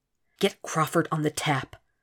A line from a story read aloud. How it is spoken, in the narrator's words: was all he could whisper